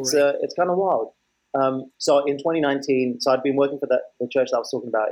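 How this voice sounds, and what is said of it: British accent. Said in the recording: “you've got your accent is more British than mine is”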